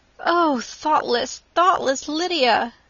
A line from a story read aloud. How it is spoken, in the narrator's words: cried Elizabeth